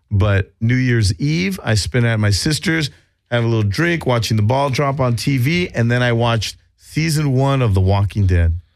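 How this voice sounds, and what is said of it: Slightly scratchy voice. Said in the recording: “My voice is still a little scratchy from it.”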